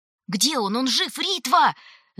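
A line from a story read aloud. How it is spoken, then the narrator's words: Three voices shouting together. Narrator (Russian): закричали Раф, Элеонор и Титта в один голос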